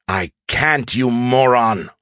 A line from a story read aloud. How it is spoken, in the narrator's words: Skippy said angrily